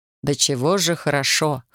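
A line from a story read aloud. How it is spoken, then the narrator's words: Amused snort. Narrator (Russian): хмыкнул Александр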